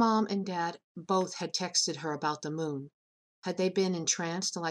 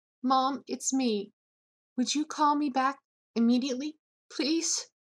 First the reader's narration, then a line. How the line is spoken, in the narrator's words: Lucille was trying to breathe evenly, but sobs were threatening to choke her